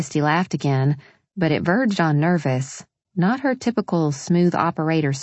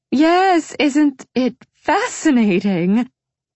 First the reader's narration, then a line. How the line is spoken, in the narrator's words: Christy trilled a laugh